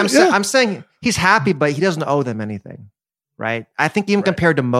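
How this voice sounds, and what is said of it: Usual voice. Nothing is said of it.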